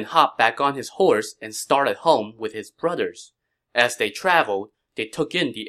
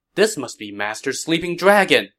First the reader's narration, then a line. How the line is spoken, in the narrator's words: Liu Bei exclaimed